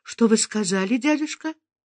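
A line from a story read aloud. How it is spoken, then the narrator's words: Confused mumble. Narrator (Russian): Фериде растерянно пробормотала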